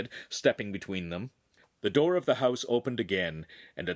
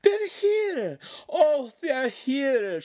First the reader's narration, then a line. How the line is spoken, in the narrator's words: she cried emotionally